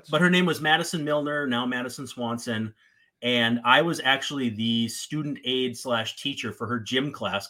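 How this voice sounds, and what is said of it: Slight northern Minnesota accent. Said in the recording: “my northern Minnesota. I grew up 10 miles from Canada, but near Manitoba, about 100 miles from Winnipeg. You maybe can hear it in my voice... A touch.”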